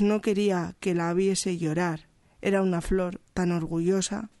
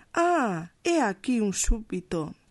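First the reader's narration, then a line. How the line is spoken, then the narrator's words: King's exclamation. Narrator (Spanish): exclamó el rey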